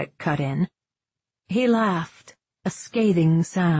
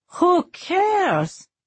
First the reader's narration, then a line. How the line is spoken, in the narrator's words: Dom Aaron cried, rounding on Edwin